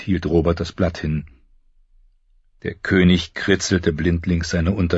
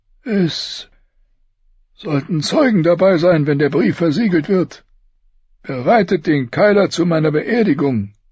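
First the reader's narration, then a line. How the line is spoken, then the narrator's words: Panting. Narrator (German): keuchte Robert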